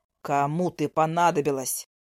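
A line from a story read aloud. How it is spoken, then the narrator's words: Angry words through teeth. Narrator (Russian): зло цедит он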